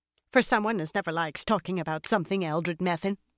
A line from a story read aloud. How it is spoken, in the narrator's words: another woman said sharply